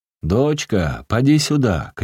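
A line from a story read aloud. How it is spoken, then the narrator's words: Stern shout. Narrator (Russian): крикнул он строго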